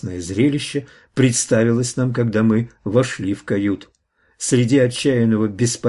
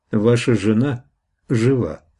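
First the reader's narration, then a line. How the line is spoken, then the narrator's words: Plain. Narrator (Russian): сказал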